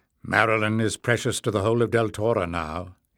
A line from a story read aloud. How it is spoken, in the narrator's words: said firmly